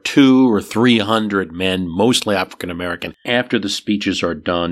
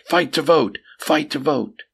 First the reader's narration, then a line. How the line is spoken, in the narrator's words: the crowd shouted in response, followed by a chant